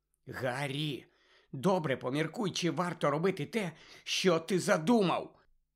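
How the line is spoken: Whisper. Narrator (Ukrainian): Зашепотіла Герміона

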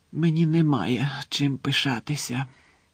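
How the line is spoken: Muffled whisper. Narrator (Ukrainian): прошепотів він крізь пальці

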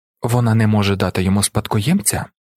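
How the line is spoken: Calm, measured. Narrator (Ukrainian): промовила Ірулан, спокійно відміряючи слова

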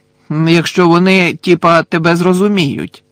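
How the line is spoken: Loud commentary. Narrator (Ukrainian): голосно прокоментував Мелфой

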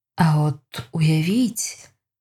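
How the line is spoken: Slow. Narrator (Ukrainian): повільно промовив Адам

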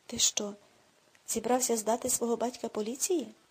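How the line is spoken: Exclaimed. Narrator (Ukrainian): вигукнув Аксель

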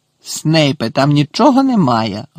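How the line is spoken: Bark. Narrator (Ukrainian): гаркнув Муді

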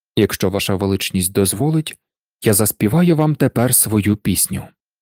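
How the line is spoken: Plain. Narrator (Ukrainian): сказав Мирослав

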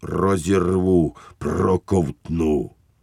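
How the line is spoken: Snarling growl, teeth clacking. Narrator (Ukrainian): Він клацав зубами і гарчав, немов говорив

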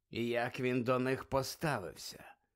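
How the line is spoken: Quiet question. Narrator (Ukrainian): тихо запитав Муді

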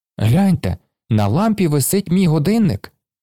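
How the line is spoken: Exclaimed. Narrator (Ukrainian): вигукнув Оскар

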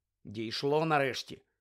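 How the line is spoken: Cold reply. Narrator (Ukrainian): холодно відповів Гаррі

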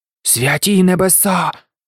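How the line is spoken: Whispered. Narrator (Ukrainian): прошепотів Гаррі

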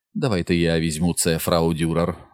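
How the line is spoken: Gentle. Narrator (Ukrainian): лагідно сказав Теобальд

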